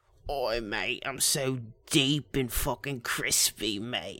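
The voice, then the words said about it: Mock British accent. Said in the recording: “So he's got a fucking British accent.”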